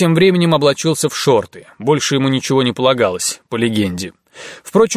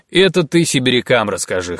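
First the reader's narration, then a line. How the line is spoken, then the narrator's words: Snort. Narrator (Russian): хмыкнул Шабанеев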